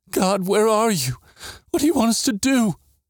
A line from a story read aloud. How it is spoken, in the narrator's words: hid her face on my hand and whimpered